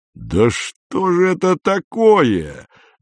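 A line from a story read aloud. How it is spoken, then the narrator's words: Roaring man. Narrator (Russian): взревел фермер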